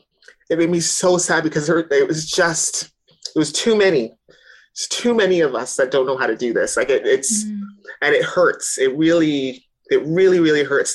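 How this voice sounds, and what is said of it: Emotional, upset voice. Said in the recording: “I'm probably a bit emotional right now”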